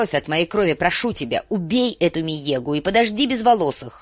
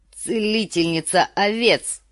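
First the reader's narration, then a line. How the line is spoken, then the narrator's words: Snorting. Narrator (Russian): фыркнул Квота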